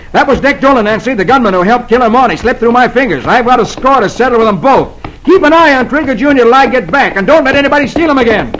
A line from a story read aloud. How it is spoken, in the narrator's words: Roy yells